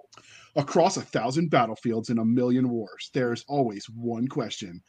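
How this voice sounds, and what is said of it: Dramatic movie trailer narrator voice. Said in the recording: “do my movie trailer voice”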